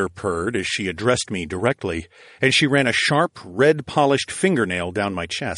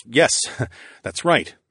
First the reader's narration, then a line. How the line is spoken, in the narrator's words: I stuttered, and I could feel my heart pounding